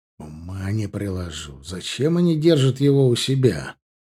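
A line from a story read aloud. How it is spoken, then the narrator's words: Thoughtful question. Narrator (Russian): задумчиво спросил Стоун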